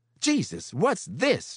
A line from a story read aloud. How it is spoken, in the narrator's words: She cried